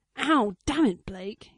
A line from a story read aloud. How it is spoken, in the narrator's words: snapped